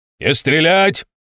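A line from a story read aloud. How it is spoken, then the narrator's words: Shout through megaphone. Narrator (Russian): заорал в матюгальник Володя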